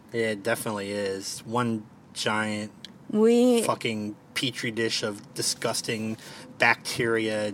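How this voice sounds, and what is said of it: Thick Baltimore accent. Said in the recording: “I have a pretty... I think I have a pretty thick Baltimore accent.”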